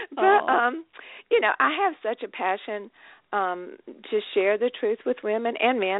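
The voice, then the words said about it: Southern American accent. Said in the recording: “you probably can hear in my voice ... my Southern accent”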